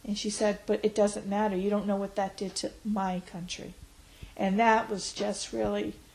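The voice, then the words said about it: Emotional, teary voice. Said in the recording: “oh, I'm getting teary-eyed. 9/11 does make me teary-eyed.”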